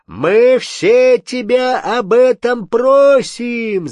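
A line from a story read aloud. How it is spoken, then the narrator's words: Crowd shouting. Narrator (Russian): закричали поляки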